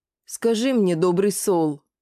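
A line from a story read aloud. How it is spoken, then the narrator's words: Deep tragic whisper. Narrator (Russian): пробасила трагическим шепотом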